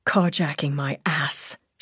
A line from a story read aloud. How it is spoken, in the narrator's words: she muttered